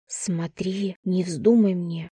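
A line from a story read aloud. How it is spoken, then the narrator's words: Whispered. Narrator (Russian): шепотом сказала я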